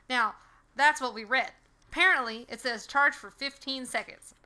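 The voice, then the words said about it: Put-on accent. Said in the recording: “I'm going to stop the accent.”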